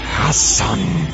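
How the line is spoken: Angry hiss. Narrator (Russian): злобно прошипел Вольфрам

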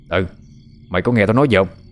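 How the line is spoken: Angry shout. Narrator (Vietnamese): Lão tức giận quát lên

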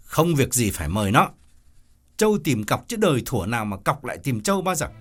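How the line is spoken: Harsh man. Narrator (Vietnamese): Ông gay gắt bảo

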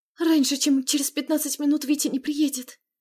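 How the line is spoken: Whispered. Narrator (Russian): прошептала она

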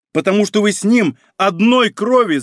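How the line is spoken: Shout. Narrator (Russian): закричав

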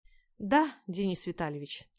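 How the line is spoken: Heavy sigh. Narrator (Russian): тяжело вздохнул

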